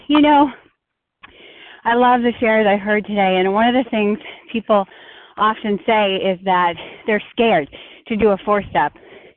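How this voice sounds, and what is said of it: Out of breath. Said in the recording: “I'm a little out of breath.”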